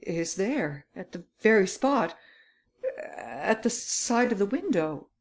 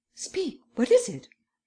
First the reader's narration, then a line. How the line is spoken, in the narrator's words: He stammered